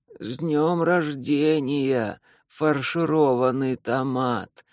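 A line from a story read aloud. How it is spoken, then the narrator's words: Bleating little voice. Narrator (Russian): произносит он блеющим голоском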